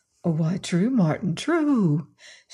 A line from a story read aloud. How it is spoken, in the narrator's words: said Adam soothingly